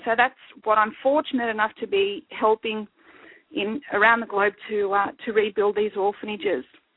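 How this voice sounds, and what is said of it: Teary, emotional voice. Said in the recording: “Sorry, it is a bit touching... obviously you get a bit teary here and there”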